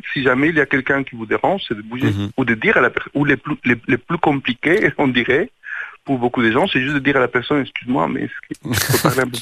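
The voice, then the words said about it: Southern accent. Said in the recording (French): “Merci pour cet accent qui vient du Sud.”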